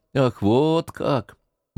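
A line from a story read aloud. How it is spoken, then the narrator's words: Mocking triumphant tone. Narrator (Russian): насмешливо тоном победителя сказал Артамонов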